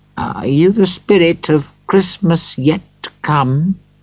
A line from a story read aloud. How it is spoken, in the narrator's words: Scrooge was more afraid of this spirit than he had been of the others, and his voice was shaking as he asked